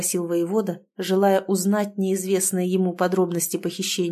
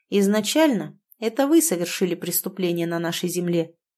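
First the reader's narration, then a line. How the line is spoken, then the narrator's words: Calm reply. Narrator (Russian): спокойно ответил Яромир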